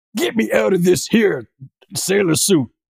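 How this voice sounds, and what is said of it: Good impression of Barrett character. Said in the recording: “That was a good impression. ... That was a good Barrett impression.”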